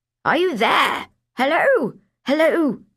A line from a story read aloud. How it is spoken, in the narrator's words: the muffled voice was now shouting, rather irately